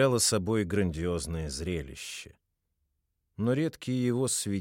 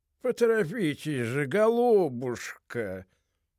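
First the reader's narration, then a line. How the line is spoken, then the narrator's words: Feeble groan. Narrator (Russian): простонал тщедушным, каким и полагалось быть Лафайету, господин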